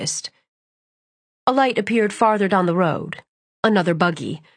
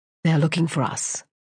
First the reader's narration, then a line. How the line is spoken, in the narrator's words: Emery whispered